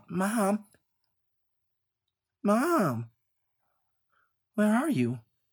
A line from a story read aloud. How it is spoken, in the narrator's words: He called out